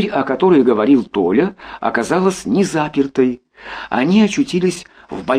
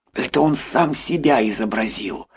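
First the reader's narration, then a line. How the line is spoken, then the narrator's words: Whispered explanation. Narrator (Russian): шепотом пояснил Никита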